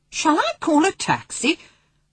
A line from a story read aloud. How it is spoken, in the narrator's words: Hunt in a shocked tone